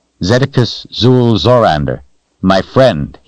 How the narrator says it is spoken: he said

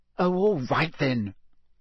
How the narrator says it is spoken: Hermione snapped

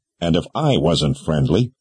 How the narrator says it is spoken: the man said

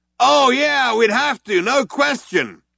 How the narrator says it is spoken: yelled back

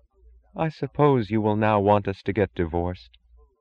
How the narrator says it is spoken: She asked in a dead voice that had the incongruous sound of common sense

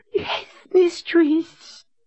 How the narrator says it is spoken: Samuel whined

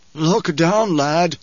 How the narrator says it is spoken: Gurney panted

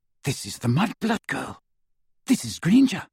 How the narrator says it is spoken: said quietly

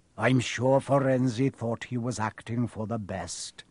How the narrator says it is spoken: he said in his gloomy voice

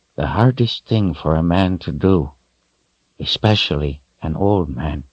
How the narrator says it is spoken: he said in a soft voice

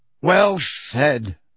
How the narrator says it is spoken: barked Ernie Macmillan

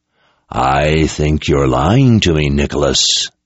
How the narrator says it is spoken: the voice growled

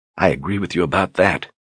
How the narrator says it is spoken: said under her breath

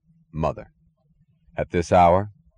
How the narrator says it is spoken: He asked dryly

